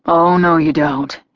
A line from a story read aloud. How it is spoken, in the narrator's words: he sighed